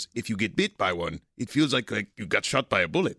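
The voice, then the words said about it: Put-on Costa Rican accent. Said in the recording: “I love the Costa Rican accent... it was really good.”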